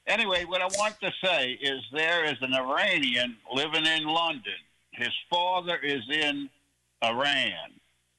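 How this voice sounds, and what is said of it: Louisiana accent. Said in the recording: “I love the accent ... I'm from Louisiana”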